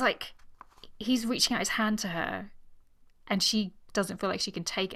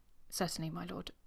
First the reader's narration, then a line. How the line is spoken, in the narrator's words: In her most expressionless voice, she said